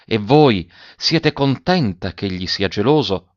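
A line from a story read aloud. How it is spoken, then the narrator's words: Quiet question. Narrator (Italian): domandò Gemmati sottovoce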